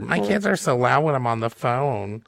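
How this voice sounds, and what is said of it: Whiny complaining voice. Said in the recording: “do a whiny voice here”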